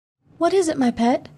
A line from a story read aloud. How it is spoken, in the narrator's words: asked anxiously